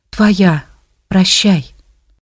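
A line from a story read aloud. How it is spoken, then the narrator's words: Whisper. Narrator (Russian): Ирина еще раз шепнула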